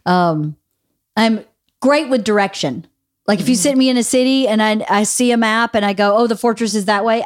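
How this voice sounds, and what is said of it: Southern US accent. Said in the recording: “I still have a Southern accent because I can't adjust that to just be non-Southern accent.”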